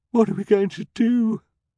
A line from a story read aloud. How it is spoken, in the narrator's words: She sobbed